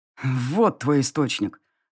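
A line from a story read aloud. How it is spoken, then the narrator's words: Man growling through teeth. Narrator (Russian): рыкнул мужчина сквозь зубы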